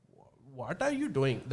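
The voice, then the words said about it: Put-on North Indian accent. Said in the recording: “As North Indian is like ... In Paki land, you would find the North Indian accent ... It's less rhythmic”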